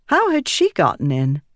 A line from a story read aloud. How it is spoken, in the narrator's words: Click chuckled